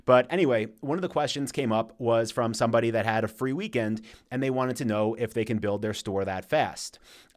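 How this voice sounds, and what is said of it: Tired, worn-out voice. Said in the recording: “my voice might sound a little shot right now”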